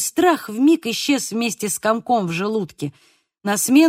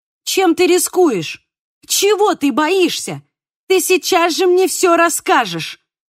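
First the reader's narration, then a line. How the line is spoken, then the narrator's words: Yelled. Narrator (Russian): заорала я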